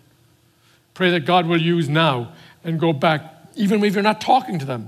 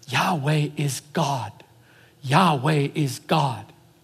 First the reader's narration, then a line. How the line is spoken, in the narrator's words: the Hebrew people would whisper in the child's ear